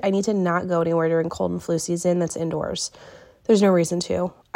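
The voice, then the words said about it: Sick-sounding voice. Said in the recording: “I'm a little sick, so if I sound awful”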